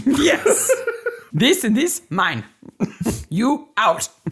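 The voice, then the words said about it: Put-on Russian accent. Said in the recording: “That's my best Russian accent. I can't do anymore.”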